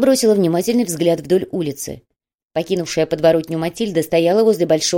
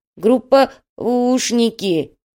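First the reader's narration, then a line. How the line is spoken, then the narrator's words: Disapproving mutter. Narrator (Russian): неодобрительно буркнул Олова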